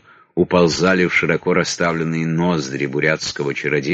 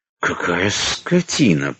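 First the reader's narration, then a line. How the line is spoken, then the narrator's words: Hissing. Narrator (Russian): прошипел Родзянко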